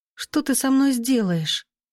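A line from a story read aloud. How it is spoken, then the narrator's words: Whisper. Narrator (Russian): прошептала она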